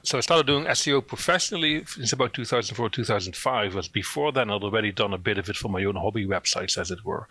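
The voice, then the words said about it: Dutch accent. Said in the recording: “I'm originally from the Netherlands. That's where the accent's from.”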